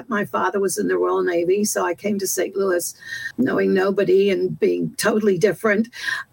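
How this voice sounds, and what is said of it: English accent. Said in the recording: “I don't even tell from the accent. I'm originally from England”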